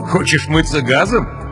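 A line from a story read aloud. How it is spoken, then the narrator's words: Laughing. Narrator (Russian): засмеялся майор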